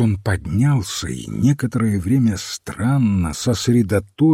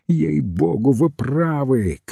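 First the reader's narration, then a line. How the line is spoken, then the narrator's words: Shouting. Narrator (Russian): крикнул он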